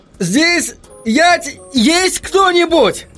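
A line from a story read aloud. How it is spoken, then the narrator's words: Shouted. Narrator (Russian): крикнул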